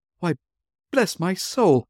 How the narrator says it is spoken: cried Fred

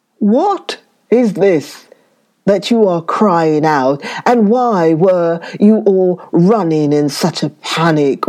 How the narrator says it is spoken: roared the lion

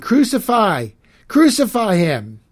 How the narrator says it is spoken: they kept shouting

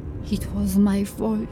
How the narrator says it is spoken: she said softly, and then louder

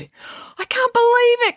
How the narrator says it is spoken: cried Harvey

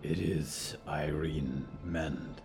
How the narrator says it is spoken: said Diggory quietly

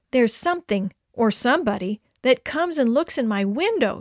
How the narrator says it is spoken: she cried

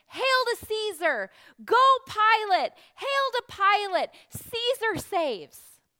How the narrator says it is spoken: an adoring crowd shouting and cheering

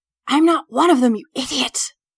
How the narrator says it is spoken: She hisses, just loudly enough so that we can all hear

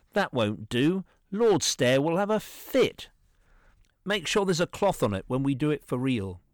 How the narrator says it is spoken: exclaimed

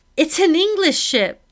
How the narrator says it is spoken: I shout

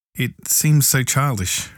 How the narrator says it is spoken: faltered Valancy

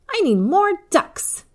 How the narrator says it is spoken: Eva exclaimed

